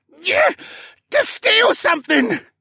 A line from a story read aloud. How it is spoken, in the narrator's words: He screeched